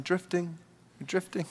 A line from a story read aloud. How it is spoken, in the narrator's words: my dad would just sit there quietly beside me saying